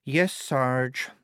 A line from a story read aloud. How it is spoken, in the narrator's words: she said wearily